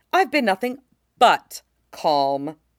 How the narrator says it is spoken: the general snarled

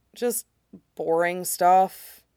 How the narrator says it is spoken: he mumbles

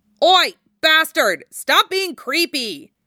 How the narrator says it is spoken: Jiraiya snaps

